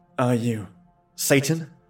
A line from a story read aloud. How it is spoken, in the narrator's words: I asked nervously